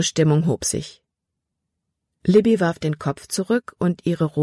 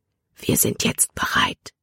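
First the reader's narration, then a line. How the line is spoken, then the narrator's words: Whispered. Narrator (German): flüsterte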